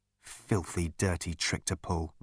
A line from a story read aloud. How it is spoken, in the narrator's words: muttered Arthur